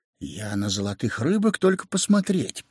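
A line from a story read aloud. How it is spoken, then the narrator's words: Quiet. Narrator (Russian): проговорил он тихо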